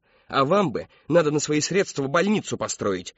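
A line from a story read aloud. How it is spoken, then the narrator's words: Barked. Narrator (Russian): рявкнула она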